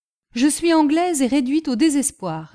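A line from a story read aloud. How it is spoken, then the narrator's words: Old woman exclaiming. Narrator (French): s'écria la vieille fille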